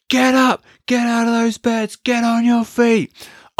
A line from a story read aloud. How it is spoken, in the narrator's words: he starts screaming at us